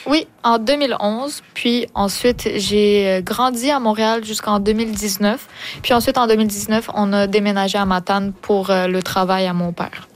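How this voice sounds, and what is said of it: Québécois French accent. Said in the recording (French): “ton accent québécois”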